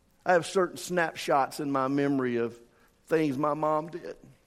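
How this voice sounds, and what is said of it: Noticeable regional accent. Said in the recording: “Everybody keeps laughing at my accents. You think I have accents?”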